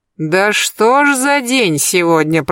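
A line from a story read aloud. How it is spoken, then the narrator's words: Groaning. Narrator (Russian): простонал Берсеньев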